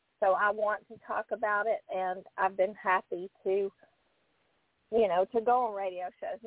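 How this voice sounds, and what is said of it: Southern American accent. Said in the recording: “my southern accent ... I'm not from New York ... I sound like Ellie Mae Clampett.”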